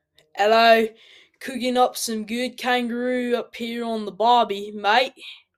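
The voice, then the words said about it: Put-on Australian accent. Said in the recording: “My Australian accent is not meant to offend the Australian people.”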